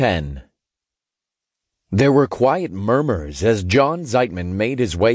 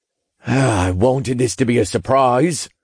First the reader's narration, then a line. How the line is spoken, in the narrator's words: Zeitman sighed